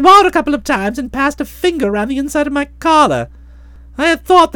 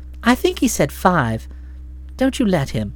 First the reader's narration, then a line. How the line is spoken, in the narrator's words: said Florence warmly